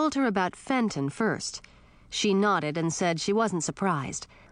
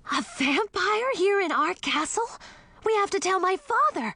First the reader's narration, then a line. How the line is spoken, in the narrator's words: Millie gasped